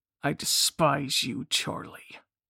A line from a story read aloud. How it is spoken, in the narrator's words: spat